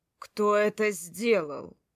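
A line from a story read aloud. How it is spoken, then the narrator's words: Growled. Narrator (Russian): Прорычал он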